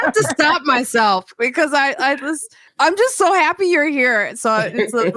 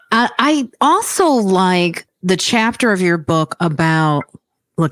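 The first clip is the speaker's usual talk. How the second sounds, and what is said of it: Imitates another person's voice. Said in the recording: “doing my Barbara Walters voice”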